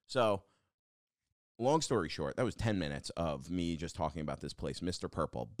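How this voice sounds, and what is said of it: Hoarse, worn-out voice. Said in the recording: “my voice is dead because like I'm like just fried. I like can't I can't even whisper”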